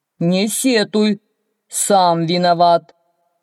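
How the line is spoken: Stern shout. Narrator (Russian): строго прикрикнуло на него что-то

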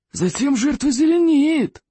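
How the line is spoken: Gleeful hiss, strangler. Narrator (Russian): радостно прошипел удушитель

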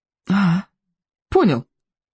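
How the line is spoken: Exhaled. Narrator (Russian): выдохнул Икинг

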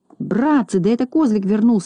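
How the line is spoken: Exclaiming. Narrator (Russian): воскликнул Незнайка

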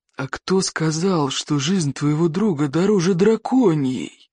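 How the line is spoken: Creaky voice. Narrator (Russian): проскрипел Одноглаз

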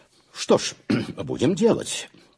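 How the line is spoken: Plain. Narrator (Russian): сказал я

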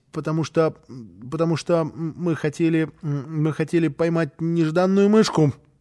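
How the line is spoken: Sad stammering child. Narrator (Russian): Малышу было очень жаль мышеловки, и он сказал, запинаясь

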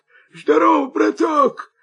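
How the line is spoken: Hoarse wolf. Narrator (Russian): хрипит волк

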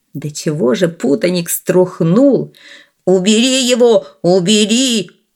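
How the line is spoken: Shriek. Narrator (Russian): завизжал он

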